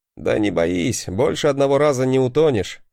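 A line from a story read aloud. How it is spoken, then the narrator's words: Laughing chuckle. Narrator (Russian): хохотнул я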